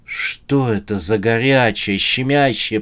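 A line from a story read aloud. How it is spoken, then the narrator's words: Moaning. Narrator (Russian): простонала она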